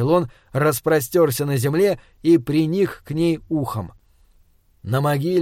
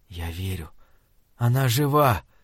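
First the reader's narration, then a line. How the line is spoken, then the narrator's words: Barely audible whisper. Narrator (Russian): едва слышно прошептал он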